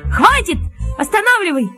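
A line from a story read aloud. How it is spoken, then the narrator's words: Shout. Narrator (Russian): крикнул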